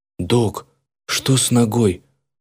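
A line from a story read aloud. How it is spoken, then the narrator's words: Voiceless whisper. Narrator (Russian): Шепотом, голоса почему-то не было, спросил я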